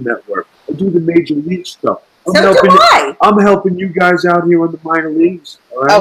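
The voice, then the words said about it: New York accent. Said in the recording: “with that accent ... this motherfucker has a New York accent”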